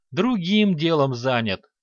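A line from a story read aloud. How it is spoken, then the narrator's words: Heavy sigh. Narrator (Russian): тяжело вздохнул Санти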